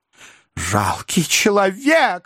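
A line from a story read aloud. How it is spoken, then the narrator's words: Woman exclaiming. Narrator (Russian): воскликнула миссис Напкинс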